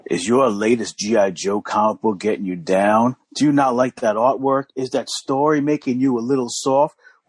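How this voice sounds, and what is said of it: Put-on sexy voice. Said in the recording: “Let me get my sexy voice on.”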